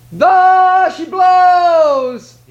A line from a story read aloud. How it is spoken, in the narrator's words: he cried